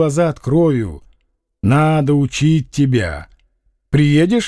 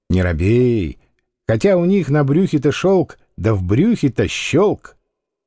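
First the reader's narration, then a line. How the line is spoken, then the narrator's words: Respectful cheerful little voice. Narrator (Russian): почтительно веселым голоском он поздоровался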